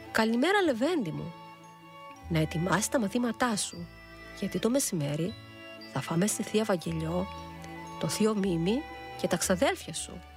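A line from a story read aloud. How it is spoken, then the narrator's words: Smiling. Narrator (Greek): είπε χαμογελώντας η κυρία Θάλια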